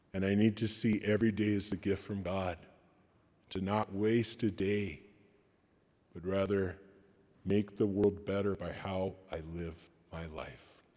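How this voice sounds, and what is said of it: Hoarse, fading voice. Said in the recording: “my voice is going out”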